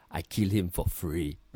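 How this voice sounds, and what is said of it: Thick Russian accent. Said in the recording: “in a thick Russian accent”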